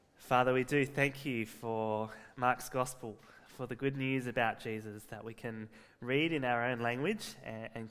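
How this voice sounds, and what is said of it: Congested voice from a cold. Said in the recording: “I've got a bit of a cold, so if I'm hard to understand today”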